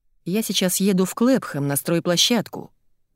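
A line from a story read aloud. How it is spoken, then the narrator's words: Plain. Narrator (Russian): говорит Дэн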